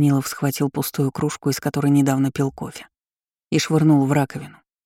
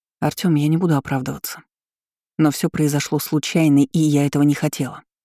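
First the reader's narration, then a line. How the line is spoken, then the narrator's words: Irritated. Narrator (Russian): раздраженно произнесла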